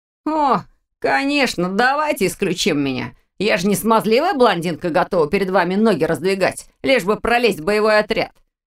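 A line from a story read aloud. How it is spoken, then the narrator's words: Contemptuous snort. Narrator (Russian): Презрительно хмыкнул Виктор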